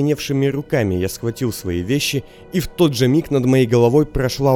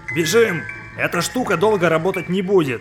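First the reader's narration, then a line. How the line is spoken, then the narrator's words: Yelling into ear. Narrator (Russian): завопил Расти мне на ухо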